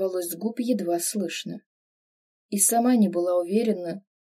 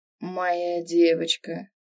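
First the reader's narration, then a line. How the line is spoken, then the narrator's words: Hoarse reply. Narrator (Russian): отозвался хрипло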